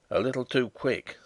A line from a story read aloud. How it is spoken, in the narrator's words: said he in his grumbling tone